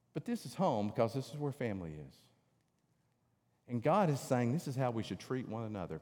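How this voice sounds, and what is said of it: North Georgia Southern accent. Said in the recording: “I'm from North Georgia. If you can't tell it, my eyes have probably given it away many times in my accent,”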